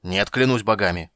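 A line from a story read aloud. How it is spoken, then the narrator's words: Angry roar. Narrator (Russian): проревел Карамон гневно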